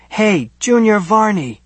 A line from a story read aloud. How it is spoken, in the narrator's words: So I yell